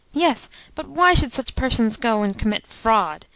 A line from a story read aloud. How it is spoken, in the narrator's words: answered the prince irritably